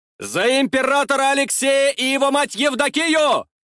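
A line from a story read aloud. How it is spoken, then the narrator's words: Loud yell. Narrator (Russian): заорал я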